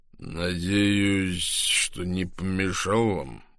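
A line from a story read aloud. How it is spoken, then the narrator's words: Slow low voice. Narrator (Russian): произнес мистер Болл медленным низким голосом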